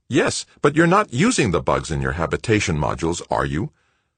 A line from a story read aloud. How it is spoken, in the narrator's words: Cardenas replied sharply